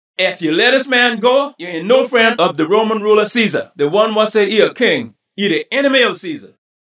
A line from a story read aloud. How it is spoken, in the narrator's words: the Jew people holler say